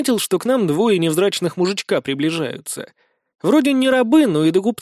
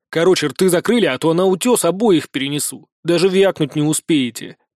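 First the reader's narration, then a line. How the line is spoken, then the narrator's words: Growl. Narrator (Russian): прорычал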